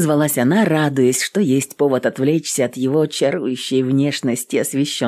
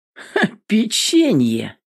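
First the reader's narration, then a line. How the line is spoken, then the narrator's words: Mocking question. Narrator (Russian): насмешливо спросил он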